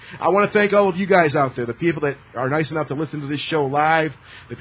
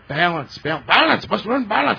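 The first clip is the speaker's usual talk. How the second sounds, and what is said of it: Bad impression of Karate Kid character. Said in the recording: “Bad impersonation. ... I know it's a bad impersonation”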